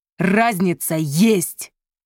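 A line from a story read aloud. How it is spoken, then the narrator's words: Growling. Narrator (Russian): прорычал он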